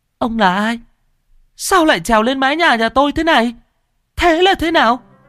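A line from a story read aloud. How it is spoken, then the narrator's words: Terrified scream. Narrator (Vietnamese): cô ba rú lên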